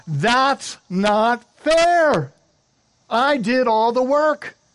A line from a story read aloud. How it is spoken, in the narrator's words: I wanted to yell out